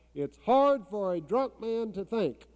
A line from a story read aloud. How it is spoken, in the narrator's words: blues singer stop in the middle of a song and holler